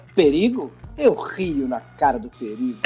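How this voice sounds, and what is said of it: Imitates a cartoon lion's voice. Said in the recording (Portuguese): “imitação a Simba da média”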